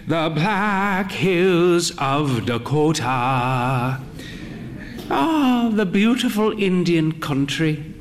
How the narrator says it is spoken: she sighed

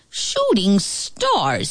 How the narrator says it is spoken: snapped

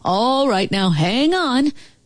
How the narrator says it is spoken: He called out

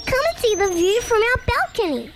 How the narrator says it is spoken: Little Kip cheered up immediately, he squeaked with enthusiasm

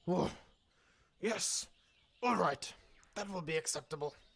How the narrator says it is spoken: said Papa Kay in a not so growly voice

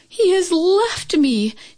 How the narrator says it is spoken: Chin Yu Min cried out

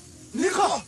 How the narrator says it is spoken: They shouted together in surprise

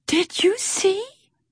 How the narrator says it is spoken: Pip whispered

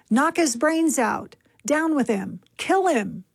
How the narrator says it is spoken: the mob's call for his death

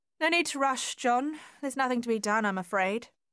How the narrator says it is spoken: she called out to him

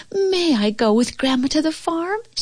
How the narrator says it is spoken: she pleaded excitedly

